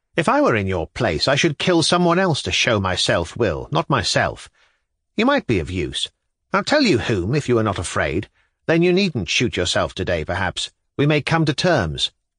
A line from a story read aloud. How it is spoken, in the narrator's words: he observed irritably